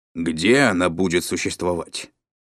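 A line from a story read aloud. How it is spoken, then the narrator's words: Menacing question. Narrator (Russian): грозно спросил дядя Валя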